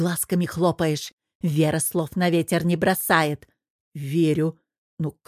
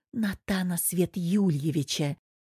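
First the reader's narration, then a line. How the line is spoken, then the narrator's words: Whispered answer. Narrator (Russian): тоже шепотом ответила она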